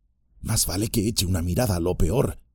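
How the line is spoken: Murmuring. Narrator (Spanish): murmuró

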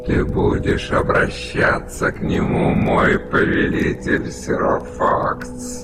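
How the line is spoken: Growling giant. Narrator (Russian): прорычал гигант

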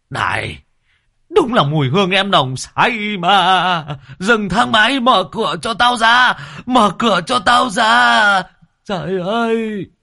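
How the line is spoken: Screaming. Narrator (Vietnamese): Một người tài xế gào lên

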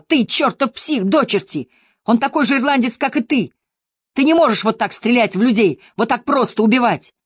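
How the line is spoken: Hysterical tearful shout. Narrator (Russian): Со слезами в голосе, в истерике, он закричал

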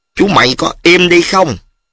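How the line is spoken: Sharp scolding shout. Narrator (Vietnamese): Ông Bốn Lai quát chú Ngải

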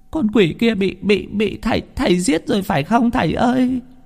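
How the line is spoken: Tearful old woman. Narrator (Vietnamese): bà mếu máo

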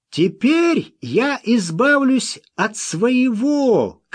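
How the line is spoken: Shout. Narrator (Russian): крикнул он Смоку

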